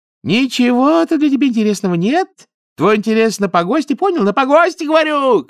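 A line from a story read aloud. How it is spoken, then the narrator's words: Shouting. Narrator (Russian): кричал Талдыкин, заросшие седым пухом дедовы уши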